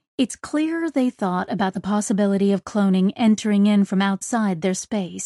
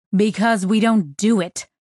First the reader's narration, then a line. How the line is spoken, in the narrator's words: she snapped